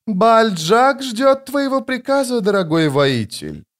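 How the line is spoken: Melodious female voice. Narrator (Russian): сказала певучим голосом женщина

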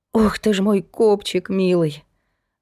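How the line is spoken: Sobbing sigh. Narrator (Russian): вздохнула уже со всхлипом Настя

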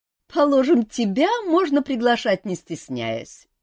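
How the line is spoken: Laughing lady. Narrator (Russian): засмеялась дама

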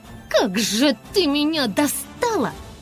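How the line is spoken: Shriek. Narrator (Russian): взвизгнула Айси

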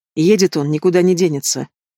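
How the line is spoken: Irritated, curt. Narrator (Russian): раздраженно бросает

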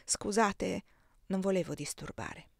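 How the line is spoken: Murmured. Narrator (Italian): mormorai

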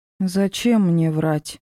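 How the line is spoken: Weary. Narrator (Russian): Устало выдала Мора

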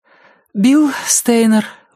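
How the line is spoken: Breathed out. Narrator (Russian): выдохнула она

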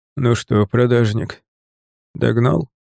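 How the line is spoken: Soft question. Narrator (Russian): спросил он мягко

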